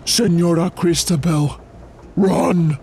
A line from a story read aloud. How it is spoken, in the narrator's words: He gasped